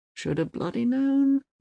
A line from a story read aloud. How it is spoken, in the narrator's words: mutters Uwe